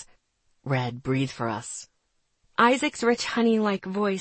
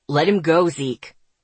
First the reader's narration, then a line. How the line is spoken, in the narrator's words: Asher snapped